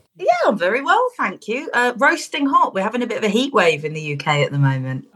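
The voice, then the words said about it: British accent. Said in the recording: “British ... I love your accent.”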